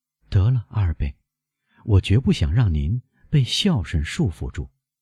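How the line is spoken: Sighing. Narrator (Chinese): 梅赛德斯叹息着说

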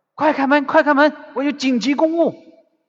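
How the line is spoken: Shouting. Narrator (Chinese): 叶祥之对门卫喊

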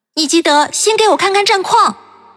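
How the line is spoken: Calling after someone. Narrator (Chinese): 我对着他的背影喊

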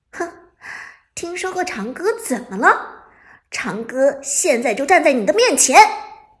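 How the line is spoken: Sneering. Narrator (Chinese): 伍兹冷笑一声道

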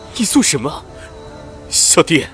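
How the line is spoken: Sad, bitter laugh. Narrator (Chinese): 蒋迪笑得凄然

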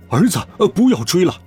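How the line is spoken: Shouting. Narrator (Chinese): 爸爸在我口袋里面喊道

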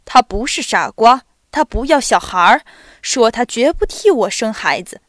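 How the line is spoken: Contemptuous laugh. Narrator (Chinese): 他轻蔑地笑起来，并且说

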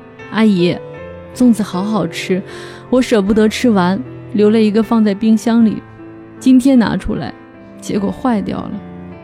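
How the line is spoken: Crying. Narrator (Chinese): 千里奔丧的月月哭着说

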